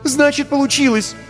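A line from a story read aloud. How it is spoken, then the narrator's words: Exclaimed. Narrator (Russian): воскликнула Вика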